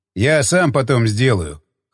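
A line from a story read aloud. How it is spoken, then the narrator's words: Snorting. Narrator (Russian): хмыкнул он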